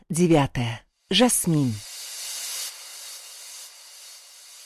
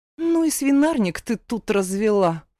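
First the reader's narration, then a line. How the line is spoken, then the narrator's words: Scornful snort. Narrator (Russian): фыркнула, осмотрев беспорядок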